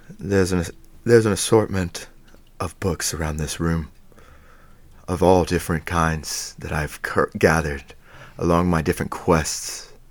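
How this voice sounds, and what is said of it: Wizard character voice, regular accent. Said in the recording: “do your wizard voice just with your regular accent”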